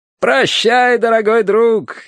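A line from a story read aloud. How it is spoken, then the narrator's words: Cheerful shout. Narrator (Russian): весело выкрикнул Терренс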